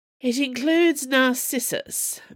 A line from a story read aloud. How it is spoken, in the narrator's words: Magellan sighed